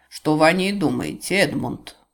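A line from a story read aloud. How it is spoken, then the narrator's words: Plain. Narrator (Russian): спросил он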